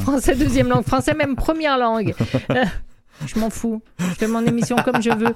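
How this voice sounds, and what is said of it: Exotic-sounding accent in French. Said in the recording (French): “mon accent ... j'adore votre accent ... Je trouve ça très exotique”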